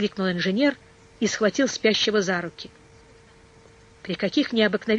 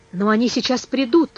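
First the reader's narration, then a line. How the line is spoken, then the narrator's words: Exclaimed. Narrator (Russian): воскликнул Айртон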